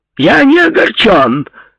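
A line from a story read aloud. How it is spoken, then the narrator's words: Shout. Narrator (Russian): закричал он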